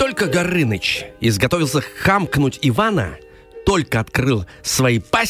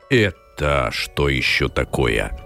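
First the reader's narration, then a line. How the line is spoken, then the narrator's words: Hissed. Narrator (Russian): зашипел он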